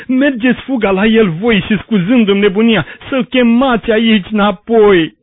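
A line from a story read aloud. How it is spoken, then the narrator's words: Prisoner howling. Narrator (Romanian): urlă întemnițatul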